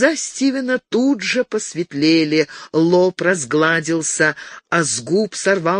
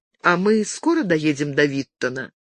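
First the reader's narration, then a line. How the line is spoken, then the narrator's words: Tender question. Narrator (Russian): нежно спросила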